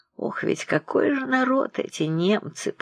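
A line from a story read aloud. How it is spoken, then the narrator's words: Heavy sigh. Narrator (Russian): тяжело вздохнув госпожа Обноскова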